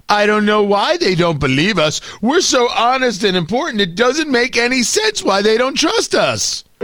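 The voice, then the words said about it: Imitates another person's voice. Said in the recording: “doing that Brian Stelter impression ... It might not be my best impression”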